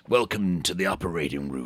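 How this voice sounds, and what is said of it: Put-on sexy character voice. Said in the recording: “I could put on a sexy Dr. Love voice ... That's your sexy voice, was it? ... Not sexy.”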